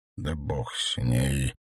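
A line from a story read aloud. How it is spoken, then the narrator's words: Barely audible mumble. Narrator (Russian): еле слышно пробормотал Радушкевич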